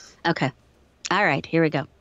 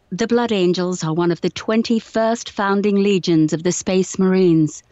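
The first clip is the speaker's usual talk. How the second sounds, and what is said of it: Put-on British accent. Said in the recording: “Do you want the British accent?”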